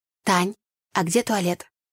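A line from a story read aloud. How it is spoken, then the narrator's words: Quiet inquiry. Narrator (Russian): негромко поинтересовалась я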